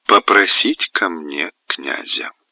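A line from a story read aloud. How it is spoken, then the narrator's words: Very tender repetition. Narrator (Russian): совсем нежно повторяет Екатерина Заводовскому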